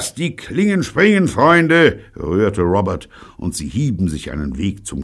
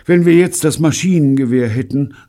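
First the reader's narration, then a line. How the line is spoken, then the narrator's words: Sighing. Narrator (German): seufzte Bunny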